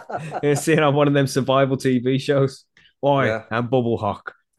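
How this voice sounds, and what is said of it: Poor put-on Australian accent. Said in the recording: “That's probably the worst Australian accent you've ever heard... It sounded a little bit like Russell Crowe, maybe Mel Gibson”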